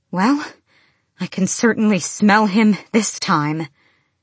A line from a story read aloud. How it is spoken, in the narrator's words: Selena said between panting breaths